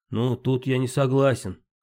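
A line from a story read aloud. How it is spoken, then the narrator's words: Senior doctor snorting. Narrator (Russian): хмыкнул старший врач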